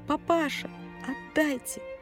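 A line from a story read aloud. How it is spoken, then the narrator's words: Hoarse wheezing. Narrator (Russian): мать бегала вокруг лавки и хрипела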